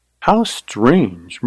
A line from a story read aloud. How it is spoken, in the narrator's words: murmured Carly